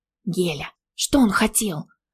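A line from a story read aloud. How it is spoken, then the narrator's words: Low-voiced call. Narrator (Russian): позвала вполголоса Диля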